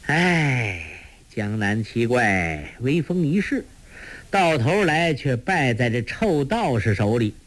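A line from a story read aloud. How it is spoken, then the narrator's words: Sighing. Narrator (Chinese): 朱聪叹道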